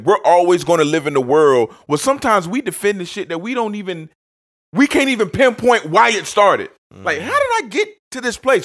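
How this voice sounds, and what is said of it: Yelling, loud angry rant. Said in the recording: “Why am I yelling?”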